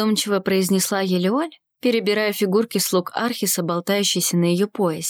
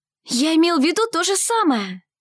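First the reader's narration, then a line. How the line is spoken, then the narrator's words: Exclamation. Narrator (Russian): воскликнул Арсений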